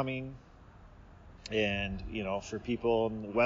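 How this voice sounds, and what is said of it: Usual voice. Nothing is said of it.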